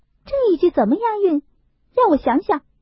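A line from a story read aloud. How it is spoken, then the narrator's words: Laughing. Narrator (Chinese): 湘云笑道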